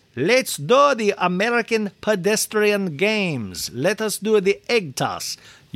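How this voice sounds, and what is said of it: Put-on German accent. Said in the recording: “in a German accent ... I don't know why he did it in a German accent.”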